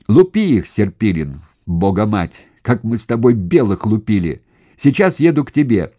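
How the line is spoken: Cheerful forest-wide yell. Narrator (Russian): Весело на весь лес орал полковник

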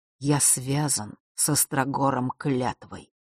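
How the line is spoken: Low, muffled. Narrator (Russian): глухо произнес отец Василисы

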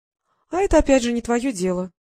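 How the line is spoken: Calm. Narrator (Russian): спокойно сказала Диана

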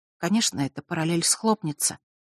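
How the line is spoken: Female whisper. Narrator (Russian): прошептала она

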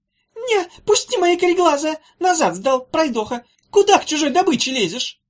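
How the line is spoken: Squealing. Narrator (Russian): Завизжал он

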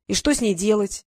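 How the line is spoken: Sharp boy, despairing undertone. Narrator (Russian): резко продолжил мальчишка, но в его голосе послышались нотки отчаяния

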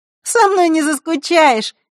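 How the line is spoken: Cheerful reassurance. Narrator (Russian): весело заверила Захара

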